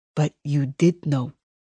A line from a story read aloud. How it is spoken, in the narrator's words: Ramirez says in a low growl